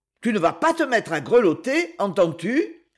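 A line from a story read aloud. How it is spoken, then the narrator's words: Angry tone. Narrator (French): fit-elle d'un ton courroucé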